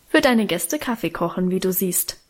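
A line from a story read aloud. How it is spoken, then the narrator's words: Plain. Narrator (German): antwortete Guste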